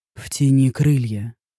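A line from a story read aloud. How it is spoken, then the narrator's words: Hoarse hot whisper close. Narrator (Russian): хриплый шепот раздался возле уха, опалив горячим дыханием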